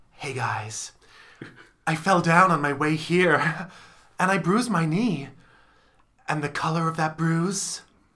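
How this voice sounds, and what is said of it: Imitates another person's voice. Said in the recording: “my impression of Taylor Swift introducing any song ... That's my impression.”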